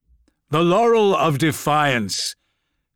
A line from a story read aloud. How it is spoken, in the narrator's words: called out Gilliman